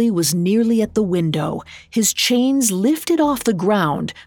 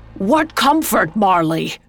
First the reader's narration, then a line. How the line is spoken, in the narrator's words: Scrooge shouting over the howling wind